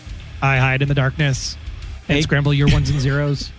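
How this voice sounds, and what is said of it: Robotic voice. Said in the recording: “you got to do it in a more robotic voice”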